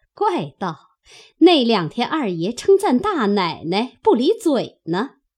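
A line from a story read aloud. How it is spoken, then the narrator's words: Smiling. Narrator (Chinese): 凤姐儿笑了一笑，回头向平儿道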